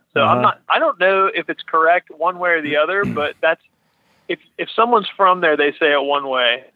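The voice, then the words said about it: Pittsburgh East Coast drawl. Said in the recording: “You pick up your O's the way that folks from where I come from do. O's, you know, Oreo, Natty Bo. ... That's the classic East Coast draw, man. ... Some would call it a Pittsburgh accent.”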